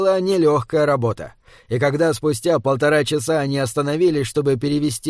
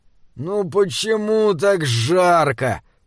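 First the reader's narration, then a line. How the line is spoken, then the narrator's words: Moaning. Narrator (Russian): простонал Джеремия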